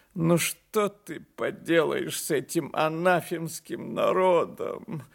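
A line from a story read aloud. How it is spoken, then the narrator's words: Tearful. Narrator (Russian): сказал он плачущим голосом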